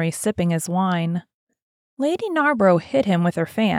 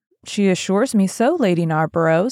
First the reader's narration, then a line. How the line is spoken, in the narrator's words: said Dorian